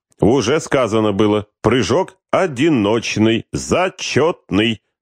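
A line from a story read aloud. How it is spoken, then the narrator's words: Crisp, clipped. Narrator (Russian): отчеканил Бекетов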